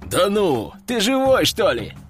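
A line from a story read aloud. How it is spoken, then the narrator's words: Chuckling. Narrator (Russian): хохотнул последний, кто приземлился в лодку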